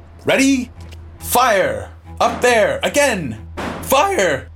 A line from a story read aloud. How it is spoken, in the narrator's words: Piercy shouting